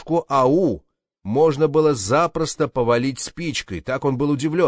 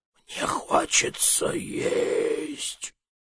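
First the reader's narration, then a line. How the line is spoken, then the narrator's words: Flower, rather weak voice. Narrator (Russian): цветок сказал довольно слабым голосом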